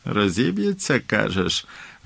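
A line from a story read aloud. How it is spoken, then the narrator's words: Happy laugh, then serious. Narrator (Ukrainian): Він щасливо засміявся, але відразу ж посерйознішав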